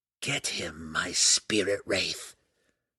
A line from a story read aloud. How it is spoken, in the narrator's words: Malice whispered with a sneer